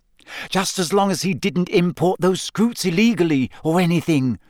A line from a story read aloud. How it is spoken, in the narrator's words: said Hermione desperately